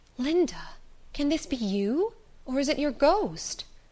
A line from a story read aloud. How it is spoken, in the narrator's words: She in utter astonishment exclaimed